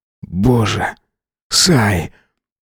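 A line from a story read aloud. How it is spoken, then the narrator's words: Muttered. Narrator (Russian): пробормотал он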